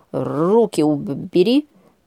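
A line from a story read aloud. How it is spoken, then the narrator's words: Indignant hiss. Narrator (Russian): прошипел возмущенный до глубины души наглым собственническим жестом Леня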